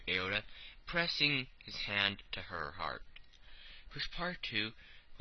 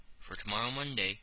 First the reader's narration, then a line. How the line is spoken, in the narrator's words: said Mr